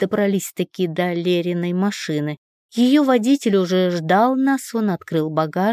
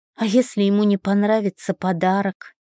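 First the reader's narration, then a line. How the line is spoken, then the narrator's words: Sigh. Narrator (Russian): вздохнула я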